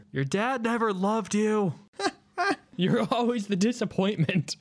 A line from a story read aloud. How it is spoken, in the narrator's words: In his head, he just yells